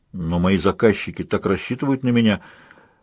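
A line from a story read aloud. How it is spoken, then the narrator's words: Muttered. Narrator (Russian): пробормотал Ронни Соак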